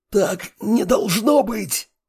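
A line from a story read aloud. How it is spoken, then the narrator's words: Hoarse wheeze. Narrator (Russian): сипел тот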